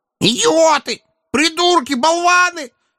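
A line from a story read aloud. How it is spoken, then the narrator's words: Howling. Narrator (Russian): взвыл он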